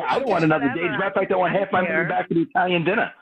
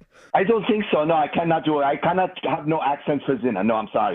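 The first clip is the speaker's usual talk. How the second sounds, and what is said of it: Unconvincing put-on German accent. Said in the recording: “Oh, that was supposed to be German. ... That was German, ... I think, from ... I just don't know what his accents are.”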